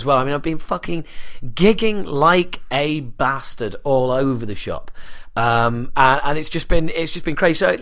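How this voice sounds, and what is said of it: Raw, strained voice. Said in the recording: “You can probably tell my voice is a bit raw”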